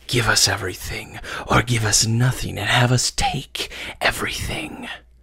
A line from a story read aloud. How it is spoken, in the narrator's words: they hissed